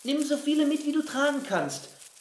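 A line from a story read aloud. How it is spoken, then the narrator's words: Calling after someone. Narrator (German): rief Winnie ihm nach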